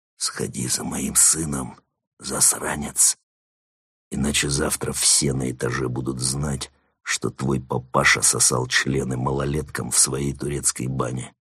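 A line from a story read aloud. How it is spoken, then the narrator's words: Whispered in ear. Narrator (Russian): Марван прошептал ему на ухо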